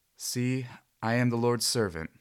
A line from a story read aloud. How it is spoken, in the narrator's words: said Mary